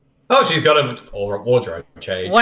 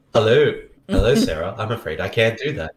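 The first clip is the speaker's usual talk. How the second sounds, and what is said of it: Robotic computer voice. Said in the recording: “This is a robot voice.”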